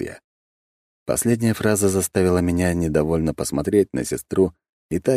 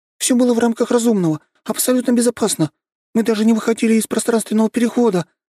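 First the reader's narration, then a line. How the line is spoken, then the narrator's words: Hasty rapid chatter. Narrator (Russian): затараторила поспешно Нюша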